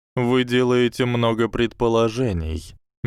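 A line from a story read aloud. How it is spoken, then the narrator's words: Soft voice. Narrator (Russian): мягко произнес он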